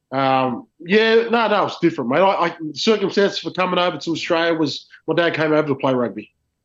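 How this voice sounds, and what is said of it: Thick Australian accent. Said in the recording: “you got a fucking thick Australian accent.”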